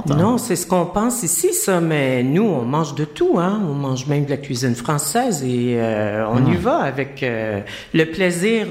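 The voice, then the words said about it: Québécois French accent. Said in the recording (French): “vous avez un accent, vous venez d'où? ... Je viens du Québec, de Montréal.”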